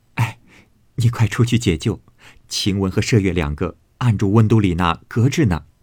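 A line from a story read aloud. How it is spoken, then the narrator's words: Laughing. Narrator (Chinese): 袭人因笑说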